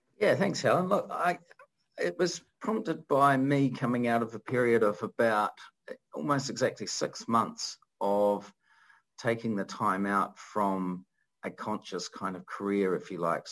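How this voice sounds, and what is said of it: New Zealand accent. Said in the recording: “is a fellow Kiwi, if you've picked that up from his accent”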